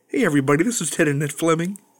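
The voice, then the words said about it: Kermit the Frog character voice. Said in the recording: “I gotta work on my Kermit the Frog”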